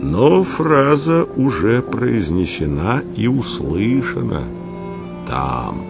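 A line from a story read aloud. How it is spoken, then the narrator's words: Solemn, tragic tone after pause. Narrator (Russian): внезапно остановившись, продолжил торжественно-трагическим тоном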